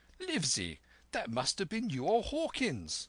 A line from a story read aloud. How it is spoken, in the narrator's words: cried the squire